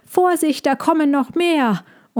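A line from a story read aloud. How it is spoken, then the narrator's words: Called out. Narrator (German): rief Balbi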